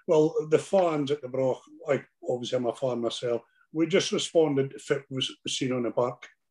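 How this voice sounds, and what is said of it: Home regional accent. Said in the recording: “it's been really nice speaking to somebody with a Haim accent”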